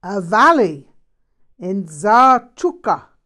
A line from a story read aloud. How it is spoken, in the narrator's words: he roared